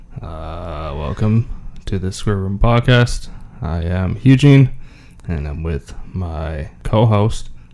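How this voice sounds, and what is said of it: Flat, monotone speaking voice. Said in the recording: “you sound so monotone ... I have a monotone voice”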